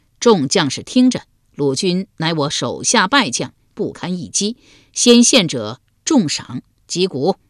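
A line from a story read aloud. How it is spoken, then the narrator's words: Loud declaration. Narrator (Chinese): 高声说道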